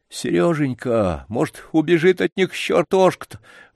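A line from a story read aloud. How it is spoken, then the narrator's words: Grandfather sobbing. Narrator (Russian): вдруг опять всхлипнул дедушка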